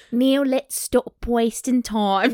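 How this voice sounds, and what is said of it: Bad put-on Australian accent, rat-like. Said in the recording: “she's Australian. ... But I can't do an Australian accent. ... That was so bad. I think it's the one accent that I do really badly. ... You sound like a rat. ... It's like a cartoon rat from Australia that's kind of evil in the end. ... It's so creepy.”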